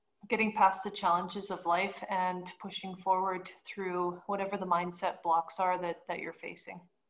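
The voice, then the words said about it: Canadian accent. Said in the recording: “haven't picked up on the accent yet, my new friend ... is from Canada”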